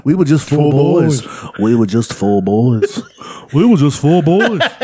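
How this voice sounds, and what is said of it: British accent, imitates another person's voice. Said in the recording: “I love your British accent? It's automatically the Beatles. ... Is that Ringo?”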